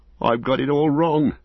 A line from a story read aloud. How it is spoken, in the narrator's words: he cried